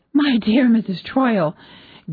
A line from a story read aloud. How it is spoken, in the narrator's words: gasped the hostess